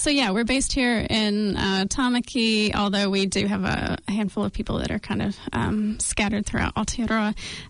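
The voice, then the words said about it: American accent. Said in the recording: “So I have a US accent. ... And this accent is never going anywhere, it seems.”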